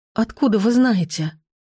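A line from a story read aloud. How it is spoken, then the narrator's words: Hoarse, anxious question. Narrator (Russian): спросила я охрипшим от волнения голосом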